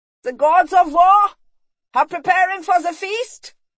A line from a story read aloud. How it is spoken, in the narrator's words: he shouted